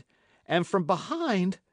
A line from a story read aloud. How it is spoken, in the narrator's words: he cried